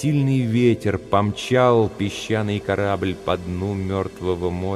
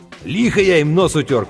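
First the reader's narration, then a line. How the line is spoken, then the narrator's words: Shout. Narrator (Russian): крикнул Сэм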